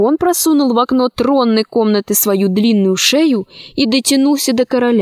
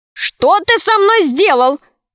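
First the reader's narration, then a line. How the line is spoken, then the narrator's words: Shouting. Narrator (Russian): закричал король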